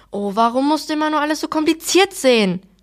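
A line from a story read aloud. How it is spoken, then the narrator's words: Mother shouting. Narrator (German): schrie Mama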